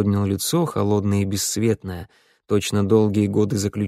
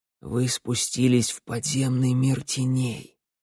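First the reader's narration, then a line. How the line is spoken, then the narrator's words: Quiet. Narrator (Russian): тихо проговорил путеводитель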